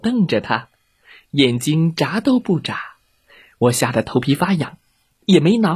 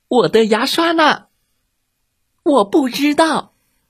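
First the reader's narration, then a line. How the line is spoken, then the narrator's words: Monstrous roar. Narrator (Chinese): 姐姐变成了一只吓人的怪兽，冲我大吼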